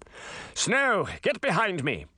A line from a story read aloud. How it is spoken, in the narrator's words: Charming shouted